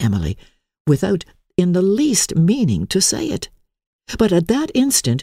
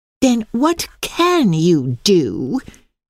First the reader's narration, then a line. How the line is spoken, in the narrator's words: said the freckled one in a contemptuous tone